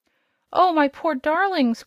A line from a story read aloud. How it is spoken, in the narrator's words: cried the queen, with a sob of anguish